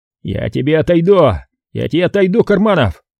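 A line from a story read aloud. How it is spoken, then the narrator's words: Sudden yell. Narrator (Russian): тут же заорал Смирных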